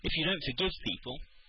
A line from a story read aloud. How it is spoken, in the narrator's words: she said tearfully